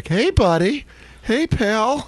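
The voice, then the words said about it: Put-on dad voice talking to kid. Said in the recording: “It's that dad voice.”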